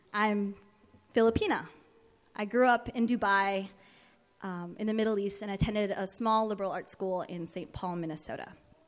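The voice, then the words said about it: American-sounding accent. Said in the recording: “I sound American, but I'm not.”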